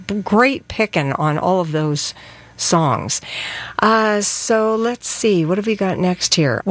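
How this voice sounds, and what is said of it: Congested voice from a cold. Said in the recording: “I have a cold”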